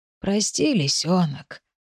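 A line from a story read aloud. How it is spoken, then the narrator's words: Hoarse wheeze. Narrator (Russian): просипел Дмитрий Валентинович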